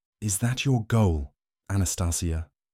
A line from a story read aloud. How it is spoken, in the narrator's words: Lucius whispered to her